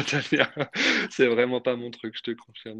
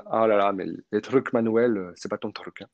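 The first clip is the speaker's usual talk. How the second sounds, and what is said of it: Imitated Russian accent in French. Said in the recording (French): “elle est russe... avec son accent”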